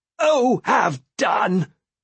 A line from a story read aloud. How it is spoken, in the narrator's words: She shouted at him